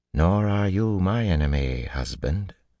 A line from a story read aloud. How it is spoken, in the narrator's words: she said coolly